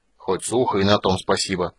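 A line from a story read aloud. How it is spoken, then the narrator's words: Grumbled. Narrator (Russian): пробурчал Флинт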